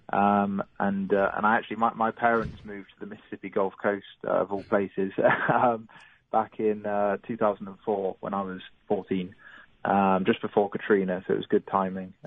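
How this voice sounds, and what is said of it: English accent, not Gulf Coast. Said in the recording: “it doesn't sound like a Gulf Coast accent that you have”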